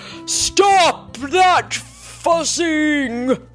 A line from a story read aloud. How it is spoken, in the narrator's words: He said in his loudest Papa Bear voice